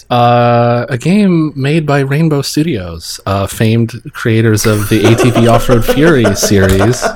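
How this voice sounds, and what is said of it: NPR radio presenter voice. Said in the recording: “you delivered it in Susan's NPR voice.”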